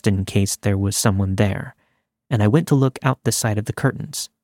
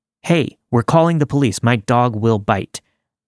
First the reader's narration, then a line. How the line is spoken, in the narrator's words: shouted